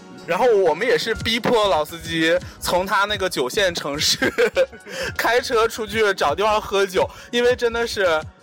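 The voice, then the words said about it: Put-on Northeastern Chinese accent. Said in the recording (Chinese): “为啥我要用东北话说呢？”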